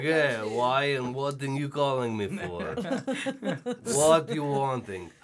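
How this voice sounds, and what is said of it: Put-on Russian accent. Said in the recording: “every time I impersonate Bailey's mom, I just make her Russian”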